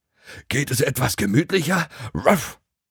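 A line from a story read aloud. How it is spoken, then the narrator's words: Dog panting. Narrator (German): keuchte sein Hundefreund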